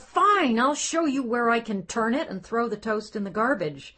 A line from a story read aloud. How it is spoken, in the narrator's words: She wanted to yell